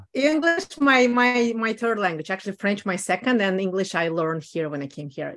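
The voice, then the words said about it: Russian accent in English. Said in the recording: “Hey, you have accent ... I'm originally from Moscow, Russia ... the accent will stay forever”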